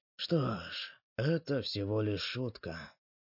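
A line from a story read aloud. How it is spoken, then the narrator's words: Sighing, mournful. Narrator (Russian): вздохнув, скорбно произнес третий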